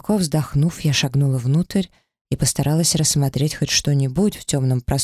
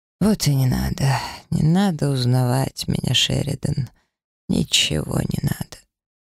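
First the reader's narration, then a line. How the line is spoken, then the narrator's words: Muttering. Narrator (Russian): пробормотал он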